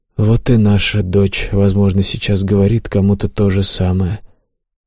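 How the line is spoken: Sad. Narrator (Russian): печально произнес Дон Игнасио

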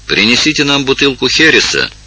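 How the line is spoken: Shouted in Spanish. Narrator (Russian): крикнул Эндема по-испански

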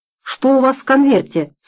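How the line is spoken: Plain. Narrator (Russian): спросил он

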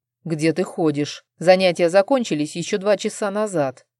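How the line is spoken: Stern. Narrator (Russian): строго сказал Арман

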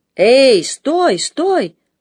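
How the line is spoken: Shout. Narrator (Russian): закричал

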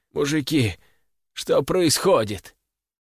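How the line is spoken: Hoarse, nauseous, strained. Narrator (Russian): К горлу подкатывала тошнота, но Борисов набрался сил и хриплым голосом спросил

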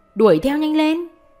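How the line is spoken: Angry shout. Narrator (Vietnamese): Mặt quỷ đập ghế la lên

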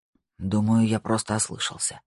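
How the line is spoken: Whisper. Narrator (Russian): прошептал он

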